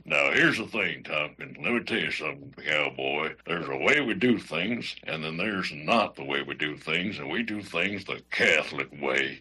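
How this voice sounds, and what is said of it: Cowboy voice, imitates another person's voice. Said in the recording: “since it was a cowboy ... my best Sam Elliott impression”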